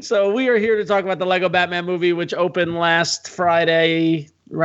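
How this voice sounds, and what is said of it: Usual voice. Nothing is said of it.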